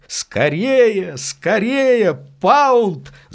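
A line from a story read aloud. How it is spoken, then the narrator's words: Breathless shouting. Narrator (Russian): запыхавшись, кричал он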